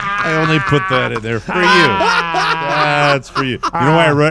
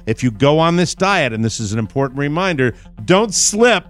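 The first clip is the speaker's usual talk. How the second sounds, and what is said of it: Reads very fast. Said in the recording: “read it so fast”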